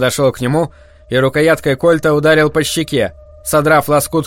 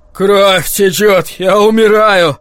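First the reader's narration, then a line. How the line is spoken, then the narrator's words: Moaned. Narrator (Russian): простонал Кинан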